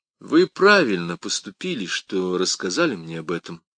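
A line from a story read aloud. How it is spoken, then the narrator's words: Calm. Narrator (Russian): спокойно начал Каррас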